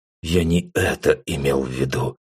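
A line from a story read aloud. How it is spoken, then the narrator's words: Flustered mutter. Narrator (Russian): пробормотал я, растерявшись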